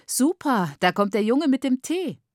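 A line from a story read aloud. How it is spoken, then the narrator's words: Beaming call. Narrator (German): rief strahlend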